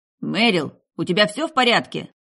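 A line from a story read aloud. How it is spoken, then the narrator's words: Almost shouting. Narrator (Russian): Я почти кричал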